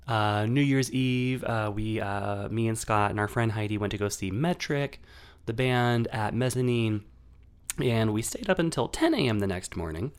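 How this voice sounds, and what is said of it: Sick-sounding voice. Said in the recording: “my voice sounds the way it does right now ... I am sick”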